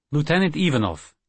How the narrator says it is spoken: he said sharply

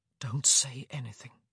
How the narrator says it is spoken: he whispered

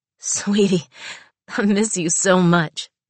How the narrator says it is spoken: she said breathlessly

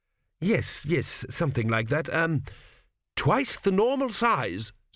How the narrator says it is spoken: said Tepic desperately

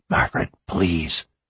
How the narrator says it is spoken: he whispered

